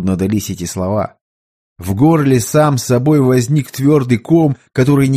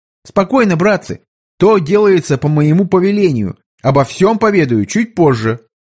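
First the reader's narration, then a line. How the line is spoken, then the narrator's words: Loud emperor's voice. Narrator (Russian): император громко произнеся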